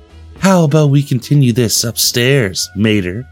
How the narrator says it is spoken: Holly said in a sultry voice

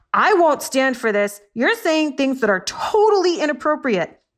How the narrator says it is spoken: The orangutan yelled

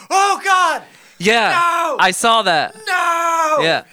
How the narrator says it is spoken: people were screaming in the stands

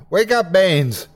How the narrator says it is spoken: I shouted

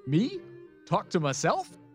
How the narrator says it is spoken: laughed, not very convincingly

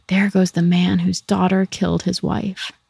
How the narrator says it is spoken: People pointed at him wherever he went and whispered

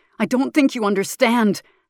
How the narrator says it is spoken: Maker shouts

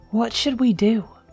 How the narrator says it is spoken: Dylan his voice tinged with worry

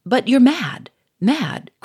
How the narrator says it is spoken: cried Gouchard

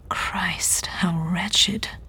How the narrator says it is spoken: he said, his voice barely above a whisper

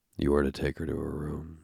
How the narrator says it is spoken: he said in a husky voice

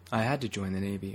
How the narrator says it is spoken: I said

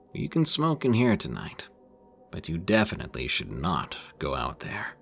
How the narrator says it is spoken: My uncle gave a kind of patronizing chuckle and said

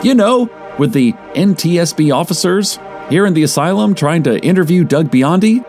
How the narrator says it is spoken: asked, perhaps a little loudly for a theater

